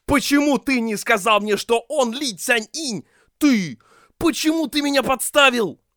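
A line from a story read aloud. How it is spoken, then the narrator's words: Loud righteous anger. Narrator (Russian): В порыве праведного гнева Ши Цаньшань громко воскликнул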